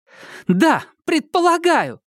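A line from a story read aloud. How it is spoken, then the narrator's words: Loud startling shout. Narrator (Russian): крикнула она так, что люди в пальто и свитерах с горлом переглянулись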